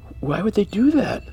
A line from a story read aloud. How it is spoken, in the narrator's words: Elijah yelped